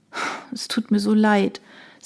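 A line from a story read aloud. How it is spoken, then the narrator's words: Sighing. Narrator (German): seufzte Emilia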